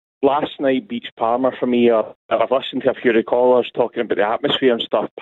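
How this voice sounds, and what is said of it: Hoarse, strained voice. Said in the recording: “I can barely speak to you. ... My voice is that hoarse.”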